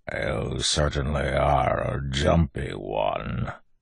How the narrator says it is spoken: growled

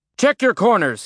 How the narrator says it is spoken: he yelled

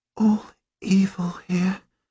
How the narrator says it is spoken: she whispers

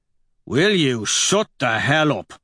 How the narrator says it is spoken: Dancer barks at him

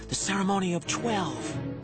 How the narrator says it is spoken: she whispered in an awed voice

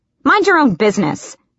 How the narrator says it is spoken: she snapped

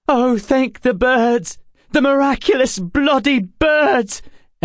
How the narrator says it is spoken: Emma cried

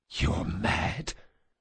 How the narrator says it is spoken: the assassin whispered

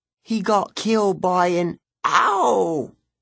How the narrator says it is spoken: She squealed as Enoch pinched the back of her arm

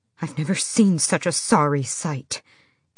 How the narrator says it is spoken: Emrys hissed

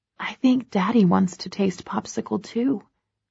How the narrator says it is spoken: I whisper in Ted's little ear

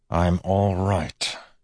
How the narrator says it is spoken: he said to Steris through clenched teeth

